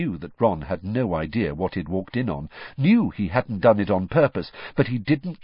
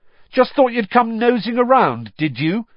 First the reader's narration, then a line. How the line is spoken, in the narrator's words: Harry shouted